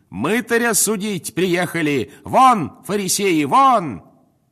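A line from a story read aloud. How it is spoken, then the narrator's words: Shouted. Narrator (Russian): крикнул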